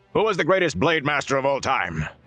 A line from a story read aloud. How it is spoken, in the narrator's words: From the throats of dozens of students came a massed bellow